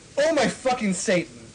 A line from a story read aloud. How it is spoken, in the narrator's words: I screamed